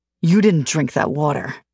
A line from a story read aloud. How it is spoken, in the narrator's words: he hisses at me